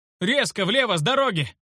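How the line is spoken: Shout. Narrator (Russian): Сумел крикнуть я

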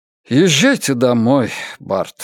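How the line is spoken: Sighing. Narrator (Russian): вздохнул Орднер

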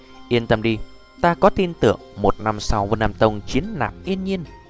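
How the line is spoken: Soft laughing sigh. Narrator (Vietnamese): Nhẹ giọng cười cười, Tiêu Viêm thở dài một hơi cười nói

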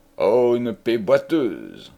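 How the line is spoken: Loud sneer. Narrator (French): ricana tout haut l'orfèvre

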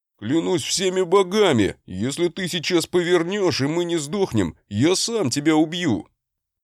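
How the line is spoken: Halting frightened yelling. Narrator (Russian): Орал брат с паузами явно боясь

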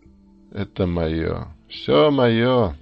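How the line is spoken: Loud laughter. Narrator (Russian): захохотал он

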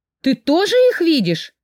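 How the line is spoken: Exclaiming. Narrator (Russian): воскликнула я

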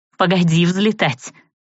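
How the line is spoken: Smirking snort, young woman. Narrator (Russian): хмыкнула девушка

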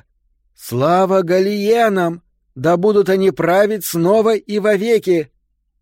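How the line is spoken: Loud. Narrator (Russian): Как бы громко она ни говорила

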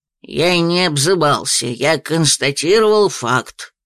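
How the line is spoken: Grumbling. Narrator (Russian): пробурчал Дар

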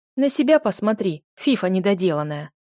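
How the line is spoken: Snapping retort. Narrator (Russian): огрызнулась Нара

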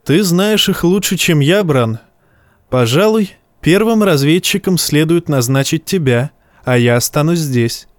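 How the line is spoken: Said laughing. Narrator (Russian): Бенджин Старк тогда засмеялся и сказал

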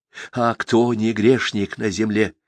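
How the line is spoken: Breathless, resolute whisper. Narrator (Russian): шептал смотритель, взахлеб, окончательно уверившись и решившись

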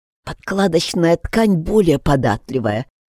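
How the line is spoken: Wheezing. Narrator (Russian): просипел Эдди

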